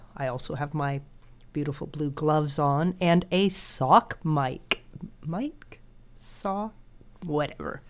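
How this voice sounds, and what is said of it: Nasal, congested voice from a cold. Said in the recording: “my wonderfully nasal voice ... I have a cold”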